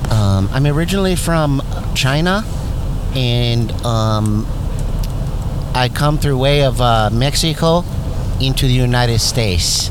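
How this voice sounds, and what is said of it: Put-on Mexican-American accent. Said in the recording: “you have a sort of Mexican-American accent”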